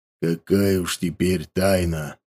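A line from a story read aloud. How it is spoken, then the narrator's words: Grumble. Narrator (Russian): буркнул страж Севера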